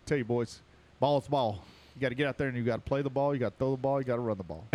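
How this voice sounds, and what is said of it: Fast West Virginia Jimbo Fisher impression. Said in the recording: “morphing into Jimbo Fisher ... you're starting to talk with a West Virginia accent real fast”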